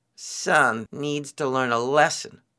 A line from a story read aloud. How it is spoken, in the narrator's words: Rabbit grumbled